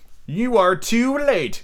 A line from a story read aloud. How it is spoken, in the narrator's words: he cried proudly